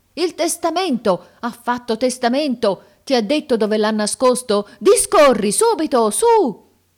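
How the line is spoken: Unanimous group cry. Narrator (Italian): il grido che emisero fu uno solo ed unanime

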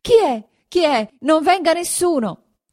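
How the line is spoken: Terrified shout. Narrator (Italian): alzando la faccia atterrita, gridò

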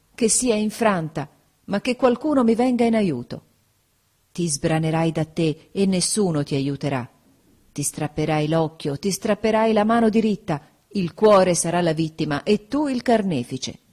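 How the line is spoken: Exclaimed. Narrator (Italian): esclamai

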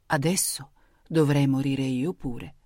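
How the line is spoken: Murmured. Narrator (Italian): mormorava

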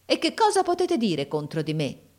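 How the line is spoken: Man's exclamation. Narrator (Italian): esclamò mio fratello

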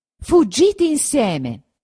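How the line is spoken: Shouted. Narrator (Italian): gridò

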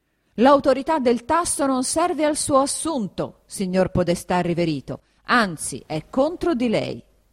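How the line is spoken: Yelling. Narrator (Italian): riprese a urlare il conte Attilio

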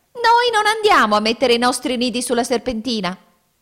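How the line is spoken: Shrieked. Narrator (Italian): la signora Fringuello strillò

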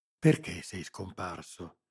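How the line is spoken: Whispered question. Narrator (Italian): chiesi bisbigliando

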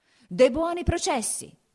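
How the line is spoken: Mayor shouting. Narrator (Italian): gridava il podestà

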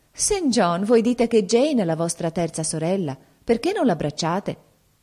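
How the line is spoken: Cheerful exclamation. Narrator (Italian): Diana, che era allegra quella sera, esclamò

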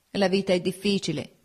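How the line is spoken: Plain. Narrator (Italian): disse

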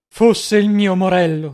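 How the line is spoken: Deeply moved exclamation. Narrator (Italian): esclamò il visconte vivamente commosso

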